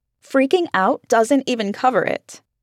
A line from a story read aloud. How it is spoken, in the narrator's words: Allison snapped, her voice cracking